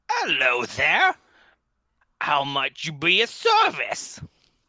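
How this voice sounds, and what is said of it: Strange put-on accent. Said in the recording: “Strange accent there”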